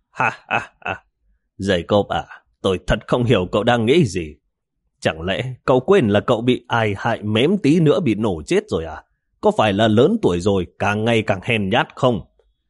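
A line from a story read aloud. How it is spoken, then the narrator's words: Sudden loud laughing. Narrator (Vietnamese): Tịch Vĩ đột nhiên cười lớn nói với Jacob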